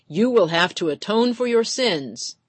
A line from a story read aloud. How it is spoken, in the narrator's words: McGettigan bellowed from the pulpit